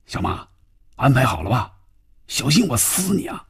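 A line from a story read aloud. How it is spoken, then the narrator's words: Tense, hushed. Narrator (Chinese): 范宇宙的心里更加紧张了，压低嗓音说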